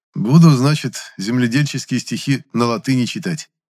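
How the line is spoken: Wry snort. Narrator (Russian): хмыкнул я

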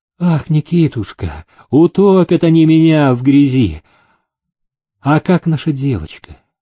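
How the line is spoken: Frightened plaintive moan. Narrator (Russian): испуганно озираясь на мужа, жалобно простонала

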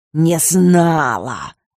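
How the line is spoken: Blurted out angrily. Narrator (Russian): вздохнула, в сердцах выпалив

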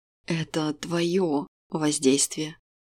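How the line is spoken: Hoarse wheezing reply. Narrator (Russian): Прохрипел он в ответ

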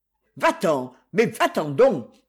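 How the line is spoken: Shouting writer. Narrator (French): cria l'auteur de romans policiers

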